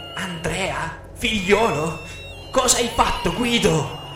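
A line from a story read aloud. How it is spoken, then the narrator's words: Anguished crying call. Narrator (Italian): piangendo angosciata chiamavo a gran voce il mio papà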